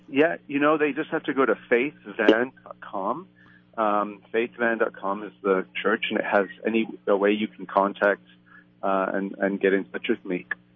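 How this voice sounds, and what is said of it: Mixed Canadian, South African, British accent. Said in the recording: “I can tell from your accent, you're a native Canadian... Well, Canadian, South African, and British.”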